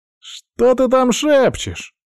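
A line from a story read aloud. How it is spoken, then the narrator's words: Shouting. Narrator (Russian): выкрикнул один из ниндзя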